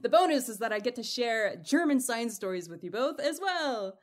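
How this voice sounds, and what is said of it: Strong American accent. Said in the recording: “my very, very American accent”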